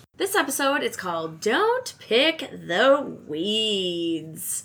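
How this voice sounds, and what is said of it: Exaggerated radio announcer voice. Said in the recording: “Extra radio voice.”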